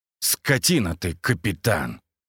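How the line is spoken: Growling. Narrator (Russian): прорычал я

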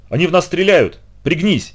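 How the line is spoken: Shouted. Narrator (Russian): крикнула она

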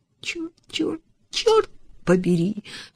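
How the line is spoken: Sobbing. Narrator (Russian): всхлипывала она

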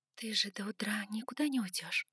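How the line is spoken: Whisper. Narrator (Russian): прошептала я

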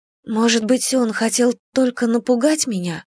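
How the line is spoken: Shivering, fearful whisper. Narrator (Russian): прошептала я, поежившись

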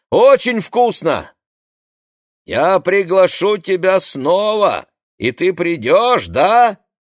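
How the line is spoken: Shouting from the darkness. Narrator (Russian): кричала мне темнота позади

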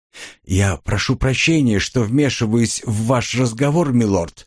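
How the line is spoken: Quiet speech. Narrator (Russian): негромко произнес птичка

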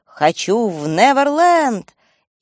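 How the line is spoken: Carried-away shouting. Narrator (Russian): Увлекшись, я даже кричала

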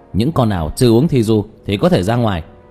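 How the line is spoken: Loud call. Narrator (Vietnamese): hắn lớn tiếng hô lên

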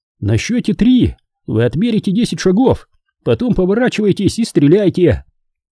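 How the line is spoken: Shouted. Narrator (Russian): он выкрикнул

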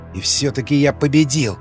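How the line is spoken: Growled again. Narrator (Russian): Снова зарычал Николай

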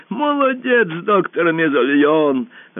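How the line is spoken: Bursting into laughter. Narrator (Russian): расхохотался узурпатор

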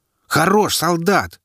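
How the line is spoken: Full-lunged bark. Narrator (Russian): гаркнул во всю мощь своих легких

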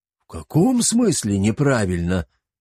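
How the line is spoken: Astonished old man exclaiming. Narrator (Russian): воскликнул сильно удивленный старик

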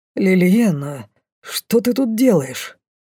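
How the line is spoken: Hoarse, confused croak. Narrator (Russian): чей-то хриплый голос растерянно каркнул

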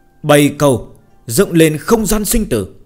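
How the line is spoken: Stern shouted command. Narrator (Vietnamese): Diêm Vương nội tâm lập tức nghiêm nghị, cao giọng thét lệnh

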